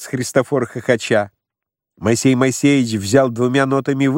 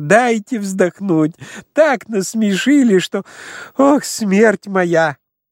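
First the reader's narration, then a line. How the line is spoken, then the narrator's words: Laughing speech. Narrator (Russian): Он смеялся и говорил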